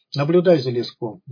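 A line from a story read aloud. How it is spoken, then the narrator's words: Gruff mutter. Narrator (Russian): буркнул Филиппыч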